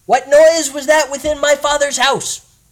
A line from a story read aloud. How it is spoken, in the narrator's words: Roni roared